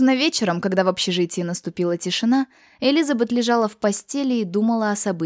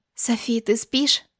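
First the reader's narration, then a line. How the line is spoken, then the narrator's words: Whisper. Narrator (Russian): прошептала она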